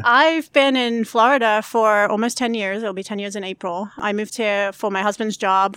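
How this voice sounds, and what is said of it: British accent. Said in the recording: “I didn't know you were British until recently... here's the accent.”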